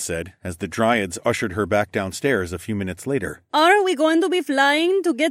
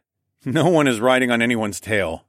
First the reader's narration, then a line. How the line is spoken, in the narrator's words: I chuckled